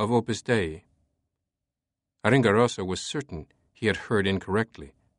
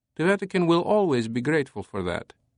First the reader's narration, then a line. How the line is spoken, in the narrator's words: the Secretariat said, his tone appeasing